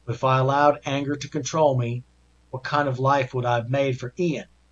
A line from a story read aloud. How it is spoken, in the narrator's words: she said